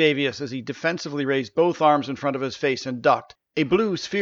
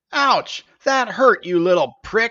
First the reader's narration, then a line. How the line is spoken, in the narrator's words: he yelled